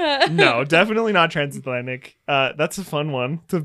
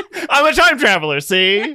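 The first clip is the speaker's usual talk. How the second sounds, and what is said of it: Put-on transatlantic 1920s accent. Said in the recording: “The transatlantic accent, don't you know? ... he is from the 1920s”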